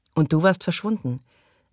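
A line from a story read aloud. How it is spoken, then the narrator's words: Wife's cracking voice. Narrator (German): sagte seine Frau mit brüchiger Stimme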